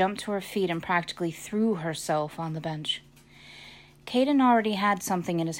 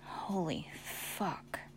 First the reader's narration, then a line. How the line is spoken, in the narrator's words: Seth whispered